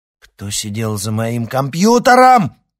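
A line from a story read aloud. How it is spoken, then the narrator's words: Yelled. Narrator (Russian): завопил Никита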